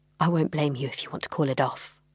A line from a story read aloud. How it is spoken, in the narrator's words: Jack said quietly